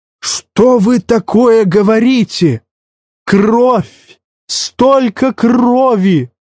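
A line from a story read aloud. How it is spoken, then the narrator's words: Howling. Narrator (Russian): взвыл Рейкис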